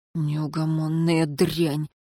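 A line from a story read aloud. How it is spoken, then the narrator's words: Gruff mutter. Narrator (Russian): буркнул смотритель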